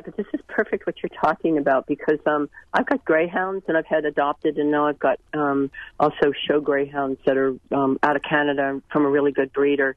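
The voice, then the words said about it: Sick, flu-affected voice. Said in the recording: “Excuse my voice. I've been battling this flu, so I'm still got it.”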